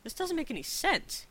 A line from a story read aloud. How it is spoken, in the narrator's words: he protested weakly